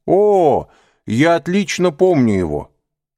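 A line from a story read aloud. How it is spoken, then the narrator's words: Exclamation. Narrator (Russian): воскликнул господин де Бувиль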